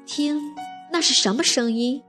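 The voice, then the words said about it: Quiet, hushed voice. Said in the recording (Chinese): “哥哥小声地说”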